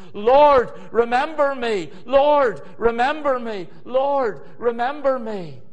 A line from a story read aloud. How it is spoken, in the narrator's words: Nehemiah, three times Nehemiah cried out